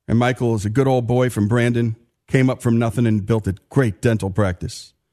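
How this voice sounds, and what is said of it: Northern US Yankee accent. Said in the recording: “As you can tell from my accent, I'm a Yankee living in the heart of Dixie.”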